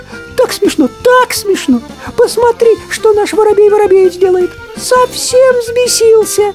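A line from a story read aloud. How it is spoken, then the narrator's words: Very thin laughing voice. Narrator (Russian): Синичка засмеялась тоненьким-тоненьким голоском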